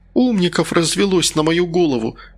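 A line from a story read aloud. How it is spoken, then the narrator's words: Sighing. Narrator (Russian): вздохнула Кондрашкина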